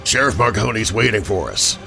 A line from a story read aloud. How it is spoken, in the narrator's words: rasped